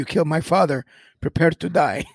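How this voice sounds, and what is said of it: Imitated movie character accent, not good. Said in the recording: “I don't know if that was a good Inigo Montoya accent, but it was probably more like an accident”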